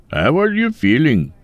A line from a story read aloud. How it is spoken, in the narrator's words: Mike laughed